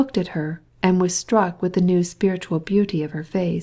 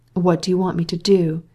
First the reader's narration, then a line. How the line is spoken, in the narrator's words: said, simply and gravely